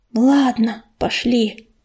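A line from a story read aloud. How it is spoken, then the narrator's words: Whisper. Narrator (Russian): прошептал Ежевика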